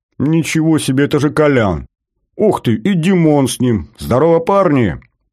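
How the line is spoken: Yelling. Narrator (Russian): заорал Батоныч

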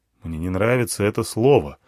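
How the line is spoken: Gloomy. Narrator (Russian): сказал я мрачно

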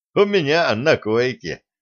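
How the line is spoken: Laughing. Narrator (Russian): засмеялся немец

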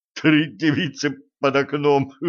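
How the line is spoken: Sobbing through laughter. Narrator (Russian): прорыдал сквозь смех

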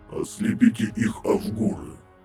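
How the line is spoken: Creaky rasp. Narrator (Russian): проскрипел Пент

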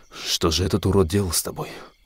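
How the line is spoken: Surprised whisper, boar. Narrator (Russian): удивленно прошептал кабан

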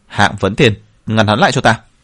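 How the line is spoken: Furious shout. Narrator (Vietnamese): Huyền Cửu Trọng cả giận quát

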